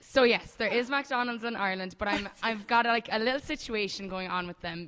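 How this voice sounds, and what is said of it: Irish accent. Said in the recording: “all the way from Ireland ... I love your accent.”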